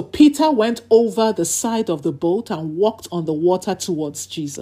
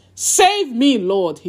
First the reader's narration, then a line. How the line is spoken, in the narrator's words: he shouted